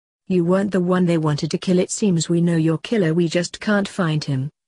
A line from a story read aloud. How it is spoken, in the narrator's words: said Blake sadly